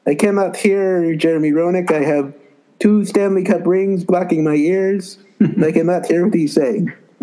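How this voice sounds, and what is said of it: French Canadian accent impression. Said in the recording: “my Patrick Waugh impression ... that was great French Canadian impression”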